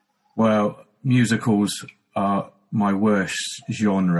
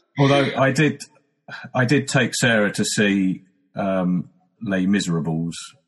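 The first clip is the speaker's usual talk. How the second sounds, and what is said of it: Put-on French accent. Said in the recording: “Your French accent there is impeccable.”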